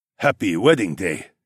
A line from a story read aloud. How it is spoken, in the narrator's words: the Korean man said in a gravelly voice